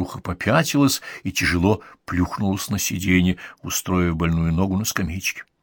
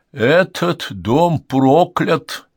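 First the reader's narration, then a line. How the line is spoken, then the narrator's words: Sepulchral voice. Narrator (Russian): произнесла за могильным голосом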